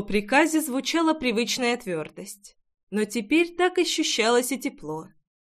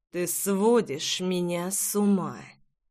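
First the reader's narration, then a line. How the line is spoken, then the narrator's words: Growling undertone. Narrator (Russian): с рычащими нотками сообщил Джексон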